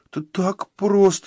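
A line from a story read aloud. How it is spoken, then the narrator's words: Squeaking. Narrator (Russian): пискнул Фритти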